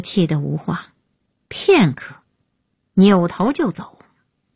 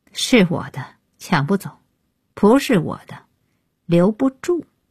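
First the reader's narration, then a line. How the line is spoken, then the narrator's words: Cold interruption. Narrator (Chinese): 安爷开口冷冷打断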